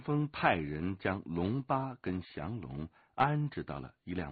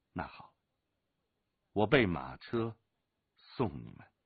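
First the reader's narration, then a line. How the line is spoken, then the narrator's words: Sighing. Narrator (Chinese): 任长风见他们执意要走，叹息了一声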